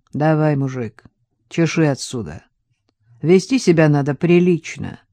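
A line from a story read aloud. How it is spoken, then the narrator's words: Indifferent voice. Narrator (Russian): Сказал равнодушным голосом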